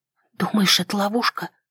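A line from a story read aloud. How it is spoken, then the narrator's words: Whisper. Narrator (Russian): прошептала я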